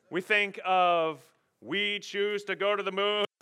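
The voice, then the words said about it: Poor JFK impression. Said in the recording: “That was the terrible JFK impression”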